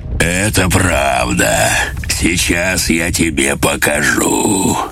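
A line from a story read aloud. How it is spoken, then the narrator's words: Pleased deep bass. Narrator (Russian): Он с удовольствием ответил басом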